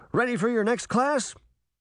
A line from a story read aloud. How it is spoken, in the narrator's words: Sabrina groaned